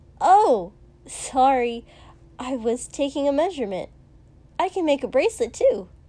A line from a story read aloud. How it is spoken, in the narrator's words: said very cheerfully